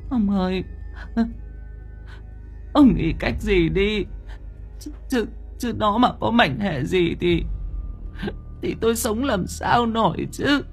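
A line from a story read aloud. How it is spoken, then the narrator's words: Tearful, whimpering. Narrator (Vietnamese): mếu máo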